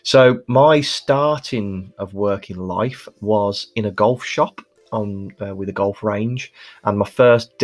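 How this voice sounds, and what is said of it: Birmingham English accent. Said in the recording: “as you can probably hear from my accent, I'm Birmingham born and bred ... it was voted as one of the worst accents in the UK”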